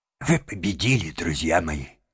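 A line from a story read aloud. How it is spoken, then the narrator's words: Trembling voice. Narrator (Russian): сказал он дрожащим голосом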